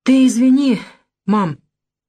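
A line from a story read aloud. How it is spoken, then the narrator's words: Forced out at last. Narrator (Russian): выдавил наконец Аркадий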